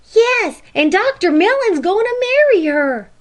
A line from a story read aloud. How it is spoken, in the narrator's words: cried Jenny